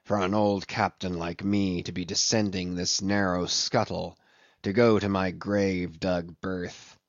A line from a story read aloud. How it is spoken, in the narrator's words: he would mutter to himself